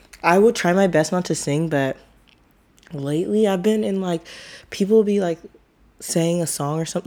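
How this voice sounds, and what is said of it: Hoarse, worn-out voice. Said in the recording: “my voice sounds shot, but to me it kind of sounds sexy”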